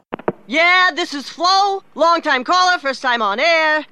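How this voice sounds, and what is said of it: Sports talk radio caller voice. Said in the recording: “this is my impression of someone calling into Sports Talk Radio”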